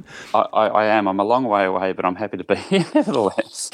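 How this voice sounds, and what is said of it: Australian accent. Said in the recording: “you are very selfishly in Australia, which listeners might have picked up on quite early on from your accent.”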